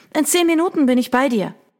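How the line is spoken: Calling out. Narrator (German): Grace rief ihr entgegen

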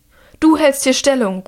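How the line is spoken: Calling out, woman. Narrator (German): ruft sie den einen zu

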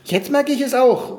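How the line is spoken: Shouting. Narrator (German): schrie Körnchen

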